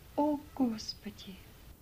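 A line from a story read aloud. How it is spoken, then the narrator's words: Unhappy whisper. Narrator (Russian): Несчастная мулатка прошептала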